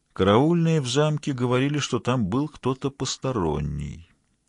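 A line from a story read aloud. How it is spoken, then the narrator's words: Calm, musing aloud. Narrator (Russian): спокойно добавил он, словно размышляя вслух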